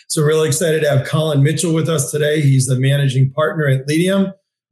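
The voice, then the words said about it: Hoarse, strained voice. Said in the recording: “my voice is still a little shot”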